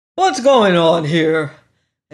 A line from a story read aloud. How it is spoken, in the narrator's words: It was a booming voice with a quality that dragged at the attention of the crowd